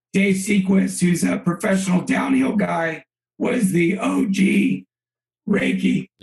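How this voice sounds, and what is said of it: Hoarse, fading voice. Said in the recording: “my voice is going out ... You spend all day yelling at everybody”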